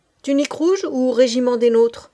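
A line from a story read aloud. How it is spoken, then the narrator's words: Old man's curt question. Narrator (French): demanda le vieillard d'un ton bref comme on parle à un égal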